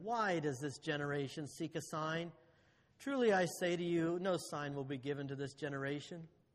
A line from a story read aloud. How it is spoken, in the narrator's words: And he sighed deeply in his spirit and said